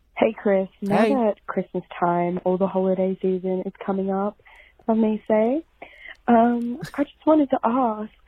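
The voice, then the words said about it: Australian accent. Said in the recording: “Oh, we got what an accent... My Australian sister, I thought you were from down under.”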